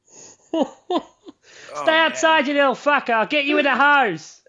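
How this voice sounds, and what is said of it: Attempted Australian accent. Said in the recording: “Is that supposed to be an Australian accent?”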